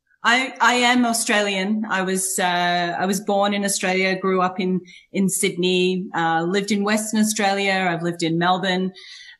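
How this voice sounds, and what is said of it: Australian accent, somewhat English-sounding. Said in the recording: “that's not an American accent. ... it sounds quite English, a bit Aussie.”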